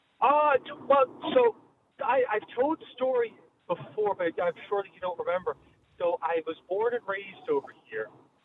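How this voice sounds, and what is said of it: Slight Irish twang. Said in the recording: “you still got a bit of an Irish twang in there”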